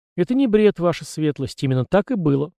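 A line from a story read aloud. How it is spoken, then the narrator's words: Calm answer. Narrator (Russian): спокойно ответил Месснер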